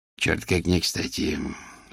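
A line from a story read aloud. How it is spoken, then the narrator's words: Annoyed, through gritted teeth. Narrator (Russian): с досадой процедил поразительный субъект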